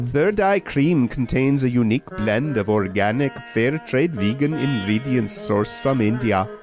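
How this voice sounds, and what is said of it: Put-on Indian accent. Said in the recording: “I have an Indian accent”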